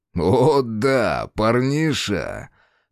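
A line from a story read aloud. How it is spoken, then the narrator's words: Man's short guffaw. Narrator (Russian): хохотнул мужчина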